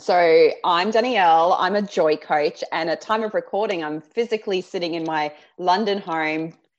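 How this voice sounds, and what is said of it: Australian accent. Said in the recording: “I'll try and ramp up my Aussie accent”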